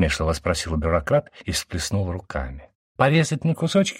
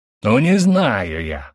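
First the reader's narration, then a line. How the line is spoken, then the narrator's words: Yelling. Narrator (Russian): заорал Гиена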